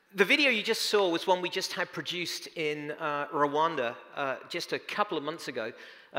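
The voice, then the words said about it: New York Bronx accent. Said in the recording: “a number of people have commented on my accent. If I speak too fast for you ... I am a native New Yorker from the Bronx, as you can tell”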